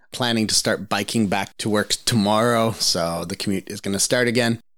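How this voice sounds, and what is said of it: Rough voice, sore throat. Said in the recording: “Excuse me if my voice isn't awesome. It's in the process of recovering from a cold... It's been the longest throat cold ever”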